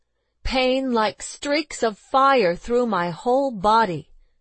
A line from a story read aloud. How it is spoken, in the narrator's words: she cried out